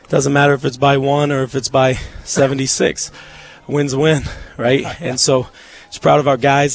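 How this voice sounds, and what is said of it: Voice not sounding normal. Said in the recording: “I apologize for my voice.”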